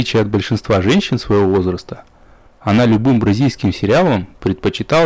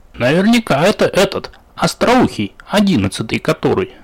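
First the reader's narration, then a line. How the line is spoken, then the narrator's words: Cheerful. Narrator (Russian): радостно подхватила тему Сергеевна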